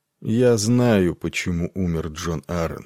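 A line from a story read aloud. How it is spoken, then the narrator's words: Plain. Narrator (Russian): сказал он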